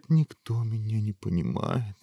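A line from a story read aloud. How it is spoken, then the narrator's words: Dejected. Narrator (Russian): уныло ответил принц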